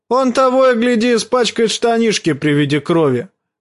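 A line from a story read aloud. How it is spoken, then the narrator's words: Shouting. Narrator (Russian): крикнул Чет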